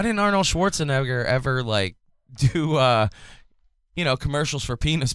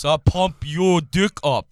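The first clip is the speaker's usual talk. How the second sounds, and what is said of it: Poor imitation of another person's voice. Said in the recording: “That was a terrible fucking impression.”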